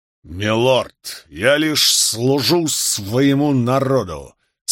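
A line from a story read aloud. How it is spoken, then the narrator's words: Faint hiss. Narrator (Russian): с едва заметным шипением ответил Гарднер Лилихорн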